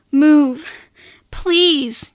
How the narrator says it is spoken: Tiziano begged

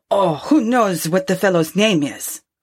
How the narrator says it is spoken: growled the innkeeper

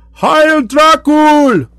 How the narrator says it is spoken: they cried

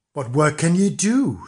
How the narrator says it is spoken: said the farmer

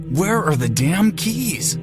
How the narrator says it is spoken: I said through clenched teeth

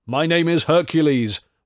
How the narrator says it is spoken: roared the mighty stranger

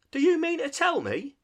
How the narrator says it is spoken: shouted the Rat

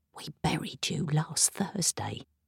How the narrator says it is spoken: I whispered

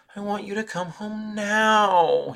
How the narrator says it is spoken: he whined

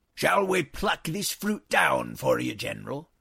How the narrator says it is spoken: roared Ira ben Ikish

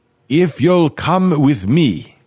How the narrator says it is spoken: Renard shouted

